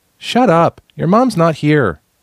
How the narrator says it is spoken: Another kid yelled

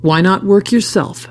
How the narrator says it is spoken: snapped back Alaneth

